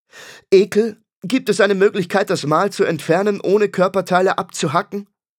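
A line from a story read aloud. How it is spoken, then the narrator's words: Loud question. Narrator (German): fragte Farin laut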